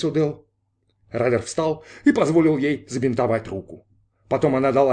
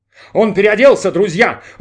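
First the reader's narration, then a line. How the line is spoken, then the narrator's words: Excited shouting. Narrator (Russian): восторженно кричал Майк Терри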